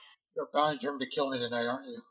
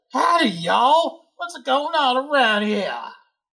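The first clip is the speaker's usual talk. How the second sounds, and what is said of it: Put-on Southern US accent. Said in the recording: “why do I sound like I'm from the South?”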